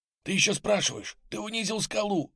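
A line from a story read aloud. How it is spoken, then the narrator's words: Blurted whisper. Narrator (Russian): выпалил шепотом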